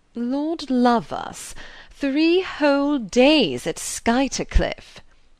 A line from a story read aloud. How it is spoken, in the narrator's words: Beaufort was saying in his loud sneering voice